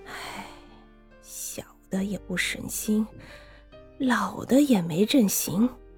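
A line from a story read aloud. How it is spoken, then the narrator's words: Sighing to himself. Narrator (Chinese): 他在独自叹息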